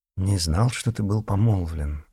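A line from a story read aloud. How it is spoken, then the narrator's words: Absent-minded mumble. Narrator (Russian): рассеянно пробормотал Мурин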